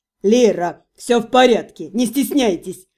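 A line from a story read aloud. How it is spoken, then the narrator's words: Chuckling. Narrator (Russian): хохотнул Каррак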